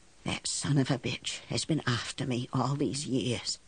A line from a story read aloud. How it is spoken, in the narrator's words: she whispered